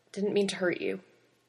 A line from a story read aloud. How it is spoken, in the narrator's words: Pete murmured